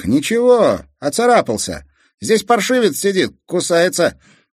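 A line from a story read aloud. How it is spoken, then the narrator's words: Shouted upward. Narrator (Russian): Казик крикнул наверх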